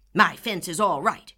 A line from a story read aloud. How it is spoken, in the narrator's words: snapped Mr